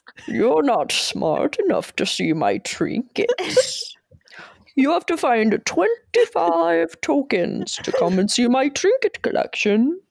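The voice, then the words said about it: Mocking character voice. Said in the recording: “That's your impression of the United States.”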